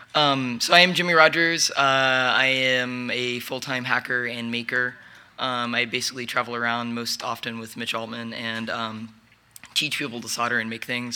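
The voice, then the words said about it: Hoarse, nearly lost voice. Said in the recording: “Sorry about my voice. ... I've been talking pretty much for 2 days, so it's almost gone.”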